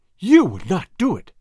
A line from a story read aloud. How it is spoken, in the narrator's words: cried the girl